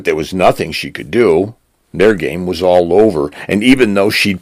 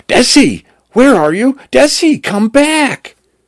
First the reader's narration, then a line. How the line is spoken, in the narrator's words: Cal screaming